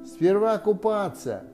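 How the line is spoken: Cheerful. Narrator (Russian): весело сказала Кенга

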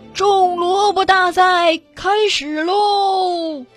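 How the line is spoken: Loud announcement. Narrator (Chinese): 牛伯伯大声宣布

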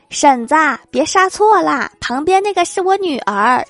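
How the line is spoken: Shouting from afar. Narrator (Chinese): 我妈远远的喊

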